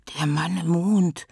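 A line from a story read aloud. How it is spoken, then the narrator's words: Creature's whisper. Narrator (German): flüsterte das Mondkalb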